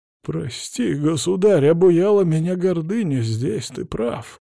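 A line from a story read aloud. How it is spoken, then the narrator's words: Hoarse priest's voice. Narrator (Russian): хрипло произнес поп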